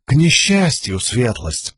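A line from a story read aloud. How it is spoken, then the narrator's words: Jester continuing with sigh. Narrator (Russian): продолжил Шут, вздохнув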